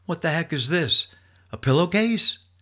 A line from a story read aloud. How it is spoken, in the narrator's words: that second guy caught my pack and shouted out